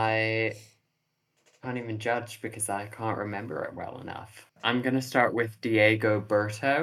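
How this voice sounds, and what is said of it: Usual voice. Nothing is said of it.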